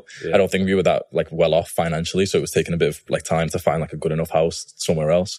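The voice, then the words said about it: Liverpool Scouse accent. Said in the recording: “you picked up the Liverpool accent though. I've seen a few comments and people are like, oh, where's he from? America? I'm like, no. That's a Scouse accent ... Can you hear the Scouse of me?”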